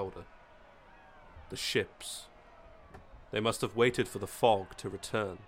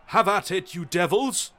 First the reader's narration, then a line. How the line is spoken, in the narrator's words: Fitzgerald cried out